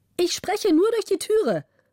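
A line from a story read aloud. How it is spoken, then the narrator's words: Bright female voice calling. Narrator (German): rief die helle Stimme der Gräfin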